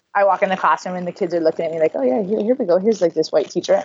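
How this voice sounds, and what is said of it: Hawaiian accent. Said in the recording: “oh no, she's from Hawaii... You have the accent.”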